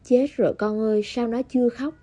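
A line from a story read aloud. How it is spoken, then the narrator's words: Grave, serious woman. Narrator (Vietnamese): bà đã nhìn tôi với vẻ mặt đầy nghiêm trọng và nói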